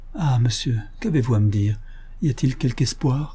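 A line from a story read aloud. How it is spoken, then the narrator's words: Pleading old woman. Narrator (French): implora la vieille dame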